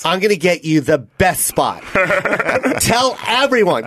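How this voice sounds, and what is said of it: Imitates another person's voice. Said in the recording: “good Bob impersonation ... It's wonderful.”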